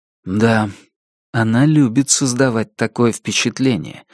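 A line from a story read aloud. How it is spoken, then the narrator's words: Plain. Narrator (Russian): сказал Райдаут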